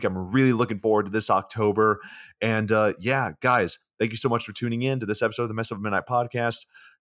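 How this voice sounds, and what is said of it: Hoarse, worn-out voice. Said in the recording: “My voice is shot from doing this podcast and screaming”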